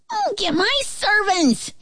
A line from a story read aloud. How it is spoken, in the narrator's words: he shouted